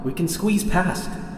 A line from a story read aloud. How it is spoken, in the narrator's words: he yells back